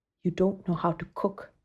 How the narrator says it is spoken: she whispered

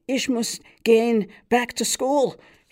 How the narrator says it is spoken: shouted Fischkoppel across the roar and shriek of the subway

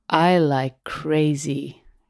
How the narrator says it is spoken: she slurred

